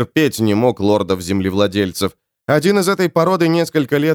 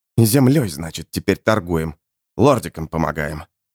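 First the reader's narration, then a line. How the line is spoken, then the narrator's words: Grumbling. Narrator (Russian): проворчал Снайп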